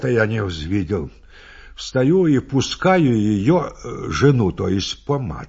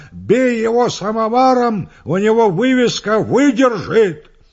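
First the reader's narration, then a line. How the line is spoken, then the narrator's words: Laughing, wild yelling. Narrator (Russian): гармонист смеется и орет дурным голосом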